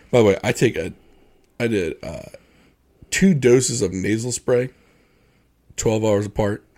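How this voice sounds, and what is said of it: Congested, stuffy nasal voice. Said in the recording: “I'm probably going to sound like this for at least the next three or four episodes ... I blew my nose in the microphone once or twice, or I sound ultra sexy ... my nose is going to run like a faucet”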